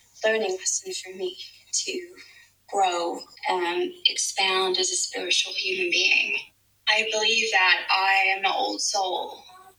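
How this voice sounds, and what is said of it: American Los Angeles accent, vocal fry. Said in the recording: “Emma Watson, American Los Angeles accent... I think it's pretty good... I think she got the vocal fry correct.”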